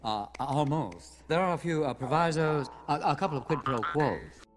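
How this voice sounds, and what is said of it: Uppity, pretentious intellectual impression. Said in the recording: “that was an impression ... a very uppity, pretentious intellectual type ... make fun of his voice”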